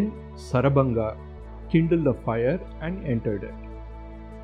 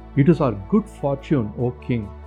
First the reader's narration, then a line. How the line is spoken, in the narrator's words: they said